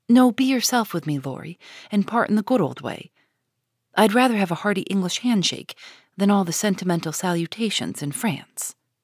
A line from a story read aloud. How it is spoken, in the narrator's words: say quickly and warmly